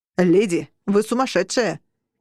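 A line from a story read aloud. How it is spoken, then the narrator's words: Shouted after someone. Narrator (Russian): крикнул вслед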